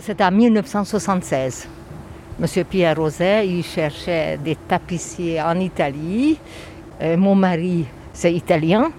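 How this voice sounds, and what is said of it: Slight Hungarian accent in French. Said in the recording (French): “vous avez un petit accent ... Oui, je viens de Budapest, je suis origine hongroise”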